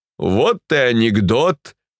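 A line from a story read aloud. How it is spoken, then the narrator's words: Solemn. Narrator (Russian): торжественно заметил Демьян Лукич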